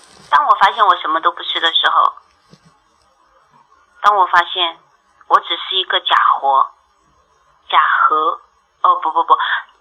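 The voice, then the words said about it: Chongqing-accented Mandarin. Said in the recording (Chinese): “我们这边的人南方口音，重庆人说普通话是很痛苦的”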